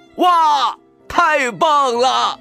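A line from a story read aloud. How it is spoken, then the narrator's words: Sudden shout. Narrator (Chinese): 突然，大奔喊道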